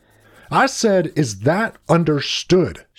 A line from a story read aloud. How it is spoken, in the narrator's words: shouted Mr